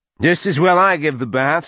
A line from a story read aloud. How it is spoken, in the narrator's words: she said loudly